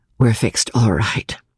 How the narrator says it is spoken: Julie replied quietly

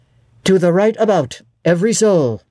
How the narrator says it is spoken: cried the master

